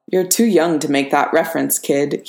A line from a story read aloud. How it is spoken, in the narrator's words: he said